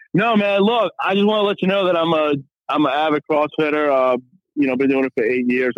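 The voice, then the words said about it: Louisiana accent. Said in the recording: “Do they have that Louisiana accent? ... I developed more of the local type”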